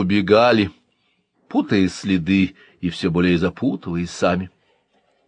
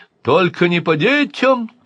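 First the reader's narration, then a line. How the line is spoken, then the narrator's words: Thin high shout. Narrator (Russian): тонко крикнул Андраковский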